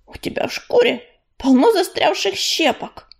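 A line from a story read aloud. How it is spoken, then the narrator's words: Grumbling. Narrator (Russian): пробурчал он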